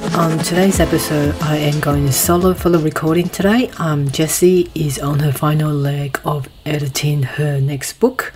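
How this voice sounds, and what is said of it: Hoarse voice, clearing throat. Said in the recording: “my voice is still recovering from COVID, as you can hear ... if you hear me clearing my throat”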